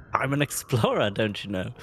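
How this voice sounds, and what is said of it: Put-on accent. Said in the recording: “I don't know what this accent is”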